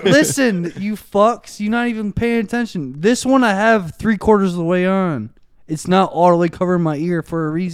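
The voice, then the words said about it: Yelling aggressively. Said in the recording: “Why are you yelling? ... I'm getting aggressive.”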